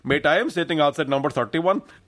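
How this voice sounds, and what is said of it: Eastern European-Northern Irish mixed accent. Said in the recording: “one of those, like, Eastern European mixed with a Northern Irish accent”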